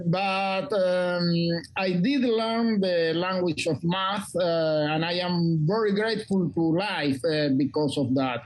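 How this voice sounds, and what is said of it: Non-native English accent. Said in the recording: “it was very hard for me to learn English as a second language. You can see that my accent is not the best.”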